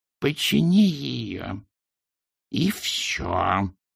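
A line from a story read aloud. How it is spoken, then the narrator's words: Hissing. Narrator (Russian): прошипела она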